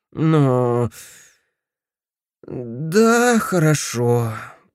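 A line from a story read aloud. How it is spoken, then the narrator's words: Unhappy voice. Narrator (Russian): произнес несчастным голосом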